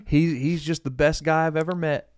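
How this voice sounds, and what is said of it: Put-on Southern US accent. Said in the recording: “I don't know why they have a Southern accent”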